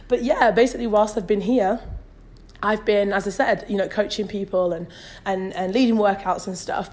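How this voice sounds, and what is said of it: Hoarse, strained voice. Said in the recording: “I have a little bit of a sore throat ... I'm losing my voice”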